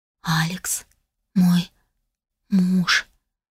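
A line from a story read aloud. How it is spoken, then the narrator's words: Hoarse, longing whisper. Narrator (Russian): прошептала я, и мой собственный голос звучал чужим, каким-то хриплым, полным томления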